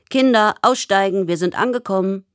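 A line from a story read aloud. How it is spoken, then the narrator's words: Calling. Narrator (German): der Mann ruft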